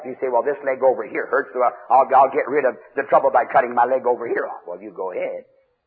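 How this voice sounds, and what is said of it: Sarcastic delivery. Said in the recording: “I'm being sarcastic ... I'm trying to hit you so hard with such sarcasm”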